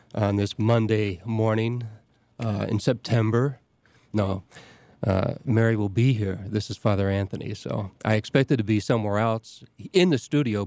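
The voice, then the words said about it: Voice changed by a cold. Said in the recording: “I've got a little bit of a cold, so my voice is a little different”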